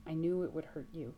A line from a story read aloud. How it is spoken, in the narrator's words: says